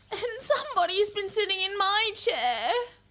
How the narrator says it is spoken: she whined

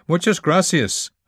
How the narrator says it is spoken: shouted

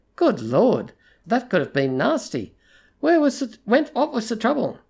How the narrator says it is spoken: his voice lightly concerned as he said

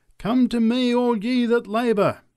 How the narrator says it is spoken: cried the preacher

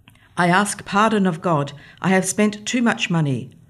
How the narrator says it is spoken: murmuring

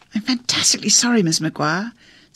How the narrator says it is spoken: Sally went on in a kind of gaspy, exaggeratedly grand accent

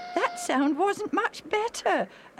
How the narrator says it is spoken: Alf said, laughing again

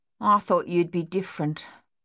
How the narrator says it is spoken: Coralie said flatly

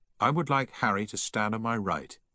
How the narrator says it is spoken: he said

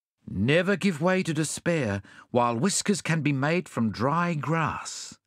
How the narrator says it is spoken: said Bunyip Bluegum

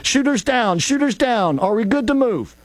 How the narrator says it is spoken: At least two, maybe three of the agents then shouted

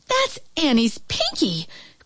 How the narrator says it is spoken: cried her mother

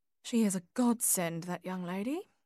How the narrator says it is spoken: murmured Edna

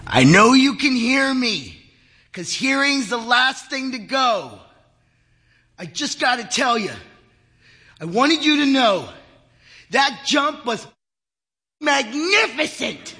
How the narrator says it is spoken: Henry bellowed into his ear

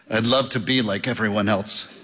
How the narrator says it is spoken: said Ebling

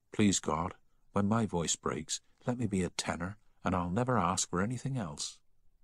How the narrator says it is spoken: whispered

